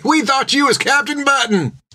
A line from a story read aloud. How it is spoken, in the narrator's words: They shouted to her